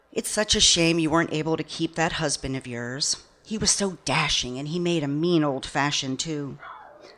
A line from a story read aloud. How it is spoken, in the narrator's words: she sighed